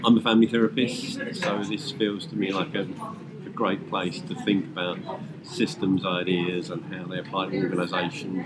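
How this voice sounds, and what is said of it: British English accent. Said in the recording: “as people can tell from my accent, I'm based in the UK.”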